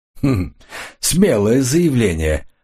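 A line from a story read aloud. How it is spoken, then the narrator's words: Sincere laughter. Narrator (Russian): Коридон искренне рассмеялся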